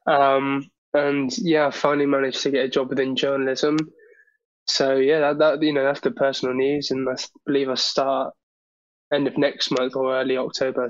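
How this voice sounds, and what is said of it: Voice sounds slightly ill. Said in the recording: “I've been a bit, I think last weekend I was a bit under the weather. As you can hear from my voice now, I'm still a bit under the weather.”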